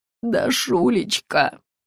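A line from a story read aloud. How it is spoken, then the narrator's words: Cooing fat man. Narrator (Russian): заворковал толстяк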